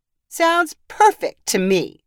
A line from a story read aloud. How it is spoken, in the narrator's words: another professor said with an appreciative chuckle